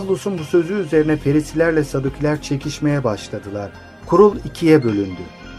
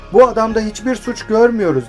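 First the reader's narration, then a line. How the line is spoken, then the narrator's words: Group shouting. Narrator (Turkish): diye bağırdılar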